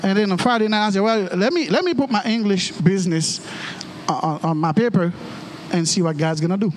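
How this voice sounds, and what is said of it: Heavy Haitian accent. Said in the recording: “I'm a Haitian. I, I, I heavy accent”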